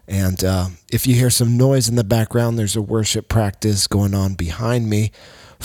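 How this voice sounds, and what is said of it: Tired, worn voice. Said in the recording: “my voice is a little tired today because I've spent it talking and yelling and preaching and encouraging people”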